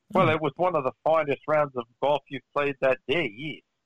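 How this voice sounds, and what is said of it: Weak South African accent slipping Australian. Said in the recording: “my accent's a little weak ... You kind of slipped down under in the middle of that South African”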